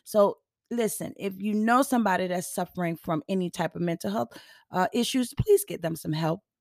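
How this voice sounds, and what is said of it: Voice not at its best. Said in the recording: “my voice is not the best um, it just you know it does what it wants to do it is pollen season”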